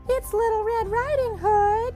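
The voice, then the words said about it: Wolf putting on little girl voice. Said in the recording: “called the wolf in a little girl voice.”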